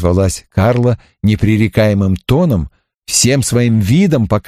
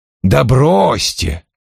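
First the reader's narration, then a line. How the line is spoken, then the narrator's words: Irritated. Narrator (Russian): раздраженно сказал Вульф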